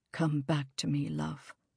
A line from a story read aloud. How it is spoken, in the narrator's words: he whispered to her, so quietly that none of the others could hear